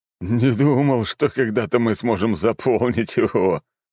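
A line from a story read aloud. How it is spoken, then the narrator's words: Short laugh. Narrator (Russian): хохотнул начальник гвардии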